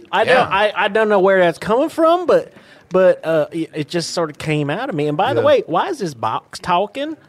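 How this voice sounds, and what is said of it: West Virginia-style accent. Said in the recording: “I like your accent. You from West Virginia?”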